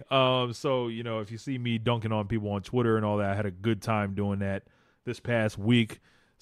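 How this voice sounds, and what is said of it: Tired, strained, fading voice. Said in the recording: “Very tired, and my voice is kind of going right now as I can hear.”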